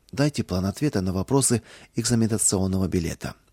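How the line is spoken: Quiet request. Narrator (Russian): Кузнецов тихо попросил

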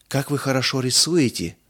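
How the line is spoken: Breathless exclamation. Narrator (Russian): выдохнула Мирца

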